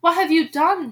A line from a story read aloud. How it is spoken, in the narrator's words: she cried